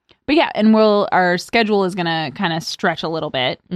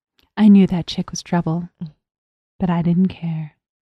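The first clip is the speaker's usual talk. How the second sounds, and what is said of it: Noir-style radio announcer voice. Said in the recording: “I'm doing a radio voice. ... It's a very like noir-y smoke wafts through the air.”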